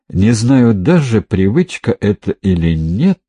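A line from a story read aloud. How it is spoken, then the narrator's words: Hesitant. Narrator (Russian): неуверенно произнес Довлатов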